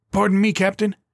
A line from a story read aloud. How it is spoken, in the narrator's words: the soldier piped up again